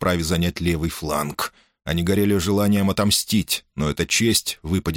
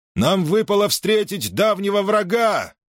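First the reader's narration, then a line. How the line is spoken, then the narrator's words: Loud carrying shout. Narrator (Russian): прокричал Перикл, и его голос разнесся по рядам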